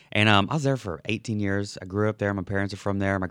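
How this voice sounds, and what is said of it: Texas accent. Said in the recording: “I grew up in a tiny town called Archer City, Texas ... So that's where the accent comes from.”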